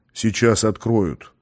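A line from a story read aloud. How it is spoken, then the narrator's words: Calm. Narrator (Russian): он спокойно произнес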